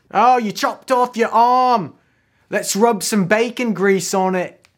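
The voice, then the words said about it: Put-on Cockney accent. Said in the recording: “That's definitely not a Roman accent. It just turned into Game of Thrones Cockney.”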